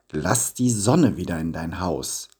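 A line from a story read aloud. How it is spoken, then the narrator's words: Plain. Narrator (German): antwortete Nikolaus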